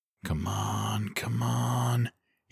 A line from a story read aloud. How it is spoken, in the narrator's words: he urged quietly